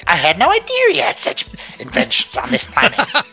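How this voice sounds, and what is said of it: Imitates the character Gwildor's voice. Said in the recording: “Gwildor's like ... hearing you doing that impression”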